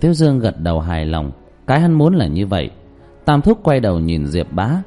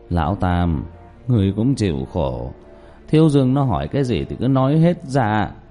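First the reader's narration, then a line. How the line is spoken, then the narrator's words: Sighing. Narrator (Vietnamese): Diệp Bá thở dài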